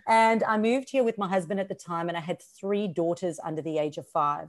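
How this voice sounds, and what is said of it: Mixed South African-Australian accent. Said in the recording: “I moved from South Africa to Australia. So I've got this mixed accent.”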